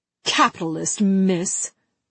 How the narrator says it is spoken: A woman spat at her

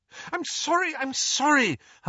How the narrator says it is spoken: Hermione cried

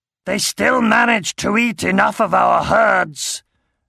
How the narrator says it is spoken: growled Thor from inside the cabin

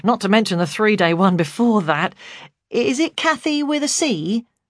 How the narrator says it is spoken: he said cheerfully

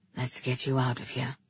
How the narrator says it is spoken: he whispered

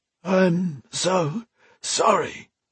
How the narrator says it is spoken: Alesh croaked

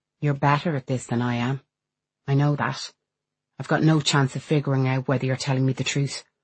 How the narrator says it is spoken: She says flatly

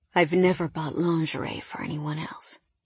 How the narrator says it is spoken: he whispered

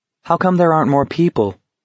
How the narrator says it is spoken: Garrity asked hesitantly

